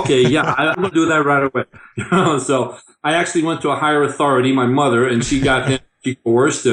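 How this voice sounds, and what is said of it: Usual voice. Nothing is said of it.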